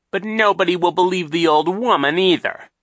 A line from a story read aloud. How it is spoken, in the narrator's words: Captain Sham said impatiently